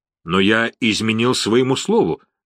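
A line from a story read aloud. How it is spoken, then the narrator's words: Plain. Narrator (Russian): сказал полковник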